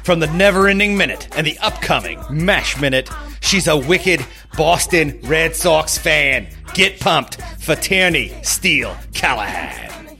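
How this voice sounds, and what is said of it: Put-on Boston accent. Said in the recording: “I do not deserve that accent ... It's just you're a Sox fan ... You're just going to keep doing that”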